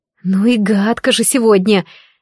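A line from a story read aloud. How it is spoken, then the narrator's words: Displeased mutter under breath. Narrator (Russian): недовольно проворчала я себе под нос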